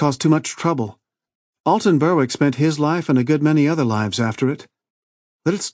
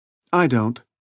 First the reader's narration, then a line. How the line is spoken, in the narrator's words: Connie replied